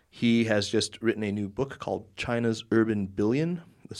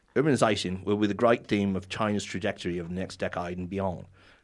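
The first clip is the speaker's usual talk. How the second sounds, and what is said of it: Put-on Australian accent. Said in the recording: “I should do this in an Australian accent ... No, that doesn't work.”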